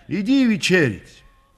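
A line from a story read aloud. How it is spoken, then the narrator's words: Shouted. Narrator (Russian): крикнула Григорию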